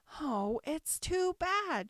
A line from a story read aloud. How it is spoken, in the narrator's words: she cried